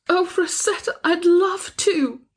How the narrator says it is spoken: faltered Charlotte

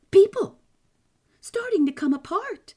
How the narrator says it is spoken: she said hysterically

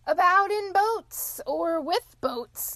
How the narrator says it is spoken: the rat went on composedly, with a pleasant laugh

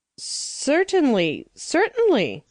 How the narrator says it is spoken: stammered the unfortunate man, feeling guiltier than ever

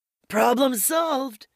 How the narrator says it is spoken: she shouted

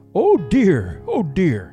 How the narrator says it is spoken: exclaimed Papa Panov

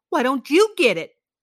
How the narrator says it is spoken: I screamed

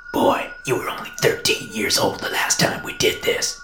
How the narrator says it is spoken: Glenn said in a harsh whisper

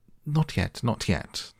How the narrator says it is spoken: the rabbit hastily interrupted

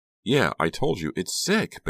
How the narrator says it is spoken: Becca exclaimed

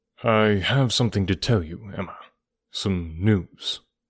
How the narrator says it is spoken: in a graver tone, began with

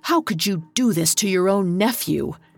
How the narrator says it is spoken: spat out

